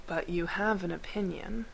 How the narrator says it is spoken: Gregor said evenly

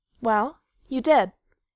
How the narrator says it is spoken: Feely said stiffly

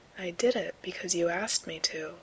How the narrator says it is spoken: Gabriel says quietly

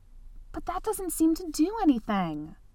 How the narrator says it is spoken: Angua snapped

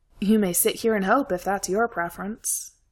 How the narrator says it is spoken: Simon said

